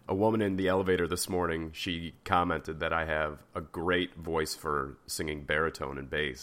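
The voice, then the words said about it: Unusually deep, low voice. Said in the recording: “Can you tell how deep my voice is today? It sounds really sultry and seductive.”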